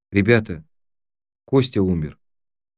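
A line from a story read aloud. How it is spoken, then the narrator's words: Quiet. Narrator (Russian): тихо сказала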